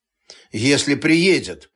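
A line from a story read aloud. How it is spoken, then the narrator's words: Gloomy. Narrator (Russian): мрачно произнес Эл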